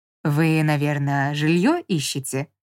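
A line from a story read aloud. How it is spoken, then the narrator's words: Ingratiating question. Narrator (Russian): Вкрадчиво поинтересовался тип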